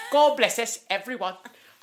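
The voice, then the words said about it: Put-on Cockney accent. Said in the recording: “With my little Cockney accent.”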